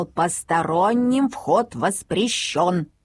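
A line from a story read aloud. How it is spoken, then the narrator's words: Stern warning. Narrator (Russian): папа строго-настрого предупреждал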